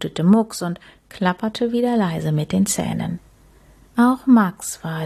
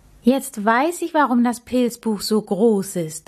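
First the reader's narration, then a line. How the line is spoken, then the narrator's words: Calling out. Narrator (German): rief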